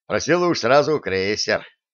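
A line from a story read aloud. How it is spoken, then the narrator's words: Snorting. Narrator (Russian): хмыкнул начальник разведки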